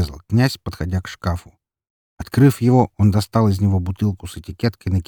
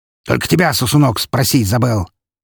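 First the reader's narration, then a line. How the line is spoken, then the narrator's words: Snapping. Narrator (Russian): огрызнулся хозяин заведения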